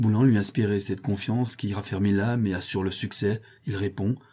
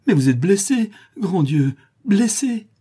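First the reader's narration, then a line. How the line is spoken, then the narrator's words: Sobbing cry. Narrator (French): s'écrie avec un sanglot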